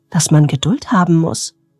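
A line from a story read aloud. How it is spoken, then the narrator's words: Plain question. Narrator (German): fragte er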